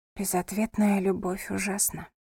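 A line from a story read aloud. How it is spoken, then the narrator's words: Whisper. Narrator (Russian): прошептала она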